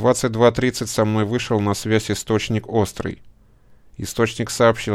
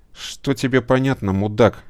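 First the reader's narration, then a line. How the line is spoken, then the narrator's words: Angry grumble. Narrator (Russian): сердито проворчал Дефер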